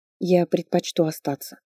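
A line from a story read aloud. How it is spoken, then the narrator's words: Quiet but insistent. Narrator (Russian): тихо, но с нажимом сказала я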